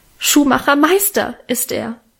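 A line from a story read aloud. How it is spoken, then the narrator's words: Tearful exclamation. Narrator (German): rief Minchen mit Tränen in den Augen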